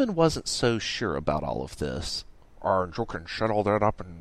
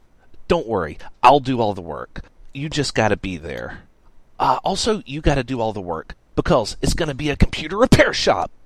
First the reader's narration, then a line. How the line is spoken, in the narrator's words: Radix exclaimed